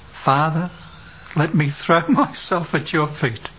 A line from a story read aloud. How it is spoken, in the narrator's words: The son whispered, sobbing